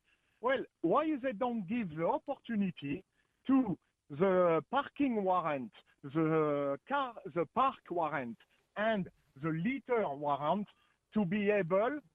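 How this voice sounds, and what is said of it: French accent. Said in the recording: “you have a French accent. So I'm assuming it's French”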